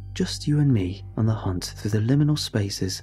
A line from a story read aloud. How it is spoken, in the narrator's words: chuckle